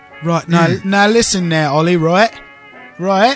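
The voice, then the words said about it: Attempted English accent. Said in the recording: “if you start speaking in an English accent ... you're embarrassing yourself.”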